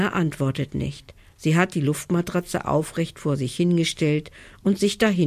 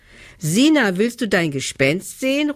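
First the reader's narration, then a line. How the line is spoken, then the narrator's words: Call. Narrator (German): ruft Nelly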